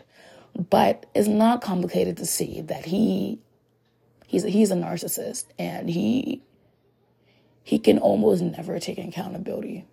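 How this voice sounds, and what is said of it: Hoarse, strained voice. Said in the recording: “I apologize once again for my voice. I'm losing my voice. I have been hacking and coughing mucus all morning”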